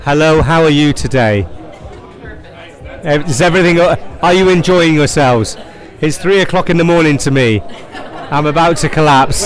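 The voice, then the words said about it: Thick Irish accent. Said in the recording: “the accent ... Irish ... we like it thick”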